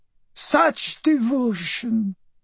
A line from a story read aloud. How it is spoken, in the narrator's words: the Countess cooed